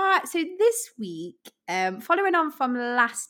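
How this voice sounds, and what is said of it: Usual voice. Nothing is said of it.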